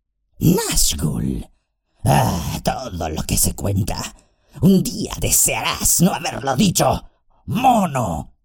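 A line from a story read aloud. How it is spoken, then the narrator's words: Fierce growl. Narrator (Spanish): gruñó fieramente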